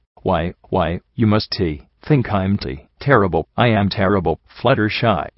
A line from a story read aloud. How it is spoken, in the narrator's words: she stammered around the tears